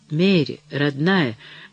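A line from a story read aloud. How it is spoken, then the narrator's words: Tender murmur. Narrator (Russian): бормотал Деннис, нежно поглаживая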